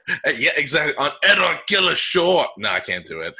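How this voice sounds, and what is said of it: Brief, abandoned Scottish accent attempt. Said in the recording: “trying to do my Scottish accent ... I'll see if I could start doing the Scotland accent, and then I'm gonna bail on it ... I can bail on my Scottish accent at any time ... I tried for not even one whole sentence.”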